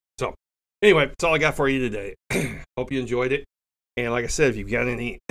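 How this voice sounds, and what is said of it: Rough voice from being sick. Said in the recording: “I apologize for my voice. I'm a little under the weather.”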